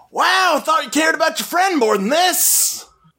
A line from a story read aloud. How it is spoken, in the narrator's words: yelling